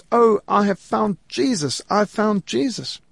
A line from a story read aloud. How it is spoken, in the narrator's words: a little girl about 11 years old lifted up her hands as she entered school and she cried out